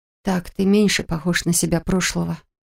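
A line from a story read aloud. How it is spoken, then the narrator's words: Quiet. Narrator (Russian): тихо произнесла я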